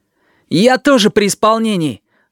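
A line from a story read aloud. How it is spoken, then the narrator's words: Almost cheerful snap. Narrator (Russian): огрызнулся Данилка почти весело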